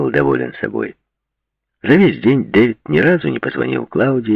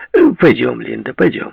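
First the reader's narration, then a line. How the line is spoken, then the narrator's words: Cheerful tone. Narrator (Russian): бодрым тоном сказал Дэвид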